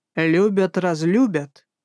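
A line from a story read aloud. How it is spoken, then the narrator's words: Warrior's growl. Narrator (Russian): Рыкнул воин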